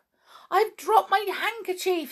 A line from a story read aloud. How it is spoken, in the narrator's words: suddenly cried Twinkle